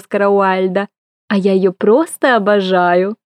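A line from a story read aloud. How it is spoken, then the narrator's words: Purring. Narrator (Russian): Промурлыкала Аврора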